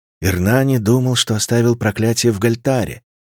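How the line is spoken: Sad. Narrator (Russian): грустно сказала Катари

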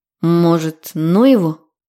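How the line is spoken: Uncertain, faltering question. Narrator (Russian): спросил неуверенно, смято

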